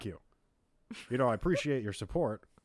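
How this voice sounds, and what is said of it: Barack Obama impression. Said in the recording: “I could do Barack. I did Barack Obama last ... episode.”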